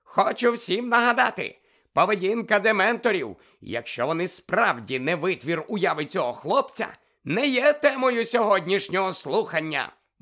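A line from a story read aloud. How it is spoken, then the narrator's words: Exclaimed. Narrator (Ukrainian): вигукнув Фадж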